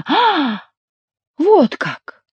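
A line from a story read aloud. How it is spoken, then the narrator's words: Exclaiming. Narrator (Russian): воскликнул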